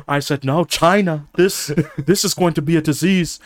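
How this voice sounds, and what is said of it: Imitates another person's voice, poorly. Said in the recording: “worst Trump impression”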